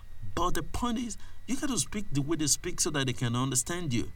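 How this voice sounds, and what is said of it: Nigerian English accent. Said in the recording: “You can't speak Wari English. You can't speak Ibadan English. You can't speak Ekiti English, even though it tends to manifest one time or the other, like it's manifesting in my voice right now”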